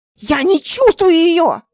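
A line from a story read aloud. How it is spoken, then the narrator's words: Wailing scream. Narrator (Russian): завопила она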